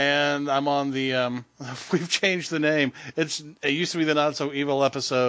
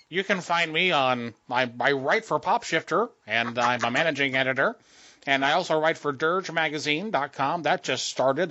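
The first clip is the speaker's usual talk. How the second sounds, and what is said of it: Imitates a stereotypical white guy voice. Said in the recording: “my white guy impression ... That's my white guy impersonation.”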